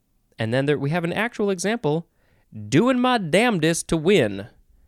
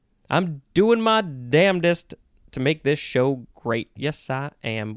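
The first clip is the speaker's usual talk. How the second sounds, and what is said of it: Put-on country accent. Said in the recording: “Why do you go to a country accent”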